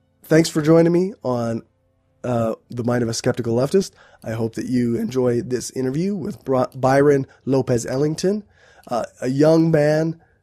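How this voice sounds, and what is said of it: Sick, unwell-sounding voice. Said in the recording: “I got sick this week... I'm still recovering... that's why my voice sounds the way it does right now”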